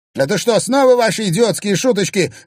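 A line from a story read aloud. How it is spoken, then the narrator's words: Barked shout. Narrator (Russian): рявкнул Тимофей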